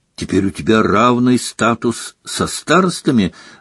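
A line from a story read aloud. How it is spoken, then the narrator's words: Joyful exclamation. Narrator (Russian): радостно воскликнула Гермиона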